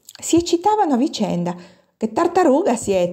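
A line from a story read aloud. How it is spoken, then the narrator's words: Exclaiming. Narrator (Italian): esclamava Peppina Sanna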